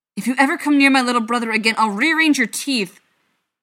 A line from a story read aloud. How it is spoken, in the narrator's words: Feely howled after him, struggling in his uncle's grasp